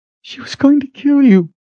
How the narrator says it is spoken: he cried against Richard's shoulder

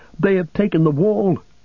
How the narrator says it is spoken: men cried

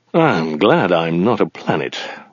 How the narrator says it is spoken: muttered Zaphod

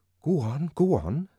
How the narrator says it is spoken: said Bernard excitedly

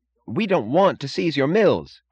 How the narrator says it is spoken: cried Mooch

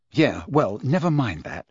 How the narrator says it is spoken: said Harry bitterly

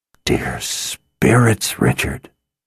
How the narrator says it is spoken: she whispered

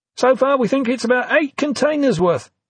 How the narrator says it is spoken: Dominic yelled back

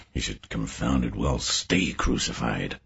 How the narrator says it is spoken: he mutters

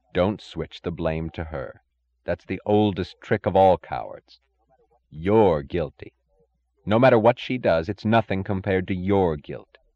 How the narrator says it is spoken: another, louder voice, saying evenly

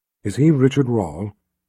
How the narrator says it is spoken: Kaelin asked

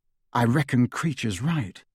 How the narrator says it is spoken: said Harry

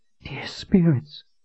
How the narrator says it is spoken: she whispered to herself

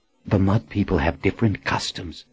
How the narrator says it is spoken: she whispered

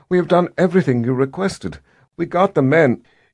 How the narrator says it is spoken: Sister Amina said in a trembling voice

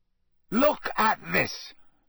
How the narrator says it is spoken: Harry snarled

